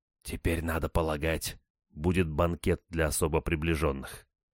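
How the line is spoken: Whisper in ear. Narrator (Russian): шепнул мне на ухо капитан

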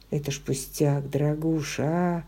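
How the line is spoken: Lazy smiling voice. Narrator (Russian): сказал он, лениво улыбаясь

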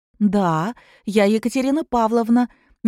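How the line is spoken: Quiet, restrained joy. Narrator (Russian): не смея обрадоваться, тихо проговорила Катя

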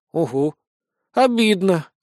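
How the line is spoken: Snail's sigh. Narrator (Russian): вздохнула улитка

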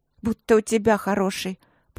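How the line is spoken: Girl grumbling. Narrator (Russian): пробурчала девчонка

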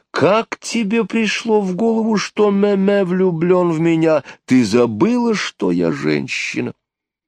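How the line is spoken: Woman exclaiming. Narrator (Russian): одна из любивших его родственниц воскликнула

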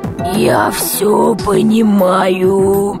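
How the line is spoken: Creaky, rusty voice. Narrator (Russian): Проскрипел космонавт, словно его голос заржавел

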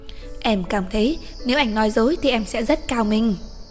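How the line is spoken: Soft. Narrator (Vietnamese): cổ khẽ nói

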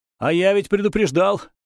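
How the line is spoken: Contemptuous smirk. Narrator (Russian): хмыкнул я, презрительно

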